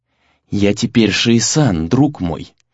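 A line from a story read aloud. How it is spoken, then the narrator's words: Soft, warm. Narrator (Russian): мягко, почти душевно произнес Сагюнару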